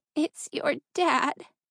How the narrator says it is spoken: her mother sobbed

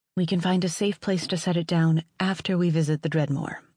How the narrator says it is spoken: Ash said quickly

